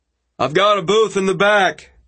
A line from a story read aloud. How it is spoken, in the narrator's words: hollered over the din